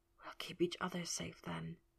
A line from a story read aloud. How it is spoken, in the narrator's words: he whispered